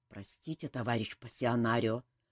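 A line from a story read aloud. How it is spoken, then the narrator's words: Embarrassed mumble. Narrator (Russian): смущенно пробормотал командор Фортуната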